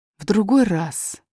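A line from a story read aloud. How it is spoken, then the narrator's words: Very gentle reply. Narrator (Russian): очень мягко ответил король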